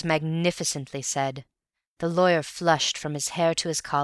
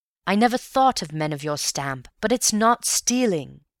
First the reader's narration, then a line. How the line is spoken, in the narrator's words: he exclaimed heatedly